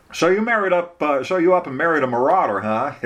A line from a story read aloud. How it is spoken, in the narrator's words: Eric chuckled